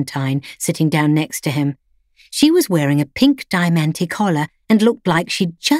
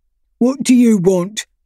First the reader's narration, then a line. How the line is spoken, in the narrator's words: barked Freddy